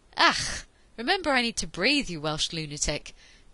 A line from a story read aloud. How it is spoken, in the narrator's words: Peter wheezed